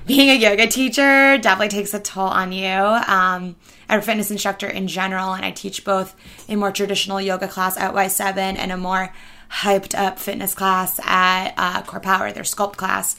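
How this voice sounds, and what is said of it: Strained, worn-out voice. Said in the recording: “as you can hear from my voice, ... losing my voice”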